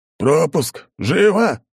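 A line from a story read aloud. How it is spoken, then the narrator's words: Hoarse shrill voice. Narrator (Russian): одновременно хриплый и при этом визгливый голос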